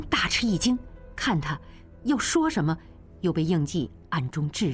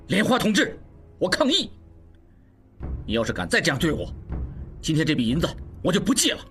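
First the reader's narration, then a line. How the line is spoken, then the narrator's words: Loud, confrontational outburst. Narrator (Chinese): 应季终于爆发了，针锋相对大声说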